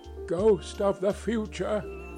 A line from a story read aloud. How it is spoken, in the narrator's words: he exclaimed